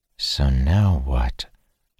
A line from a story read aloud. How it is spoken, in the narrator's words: Dalen said softly